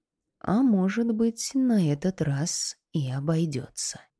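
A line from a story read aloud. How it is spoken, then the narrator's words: Quiet. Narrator (Russian): тихо сказала Танори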